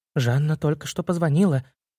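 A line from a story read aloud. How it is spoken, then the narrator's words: Frightened answer. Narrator (Russian): испуганно ответила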